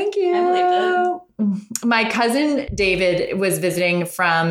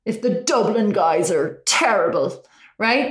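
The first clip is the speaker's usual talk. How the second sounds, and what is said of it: Put-on Irish accent. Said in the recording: “Irish accent, but I think that was pretty good. ... That was good.”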